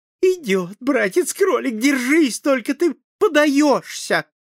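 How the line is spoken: Joyful voice. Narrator (Russian): сестрица-лиса сказала радостным голосом

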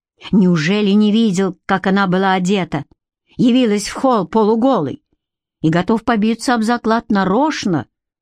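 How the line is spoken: Plain. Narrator (Russian): Карделла правду сказала

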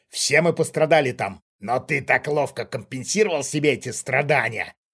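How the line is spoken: Malicious sneering tone. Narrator (Russian): зло ухмыльнулся чужак

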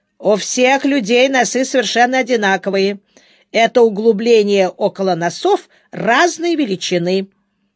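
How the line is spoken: Stern reply. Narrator (Russian): Леня строго отозвался

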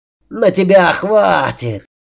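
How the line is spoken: Monster's roar. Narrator (Russian): взревел монстр

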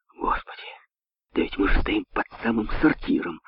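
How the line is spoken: Wolf's mutter. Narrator (Russian): пробормотал волк

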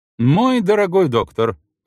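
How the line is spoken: Exclaiming. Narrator (Russian): воскликнула она

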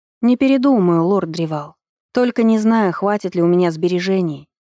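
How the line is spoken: Sigh. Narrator (Russian): вздохнула Иринка

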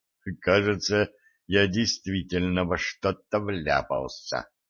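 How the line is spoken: Muttered. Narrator (Russian): пробормотал

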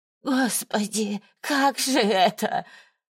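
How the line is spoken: Moaning and groaning. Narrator (Russian): Валентина снова застонала и заохала

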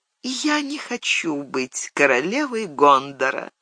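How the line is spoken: Quiet. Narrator (Russian): Она тихо добавила

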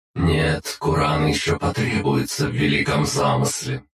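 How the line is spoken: Mechanical, nearly emotionless voice. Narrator (Russian): ответил на это обелиск своим механическим голосом, в котором едва-едва можно было различить эмоции

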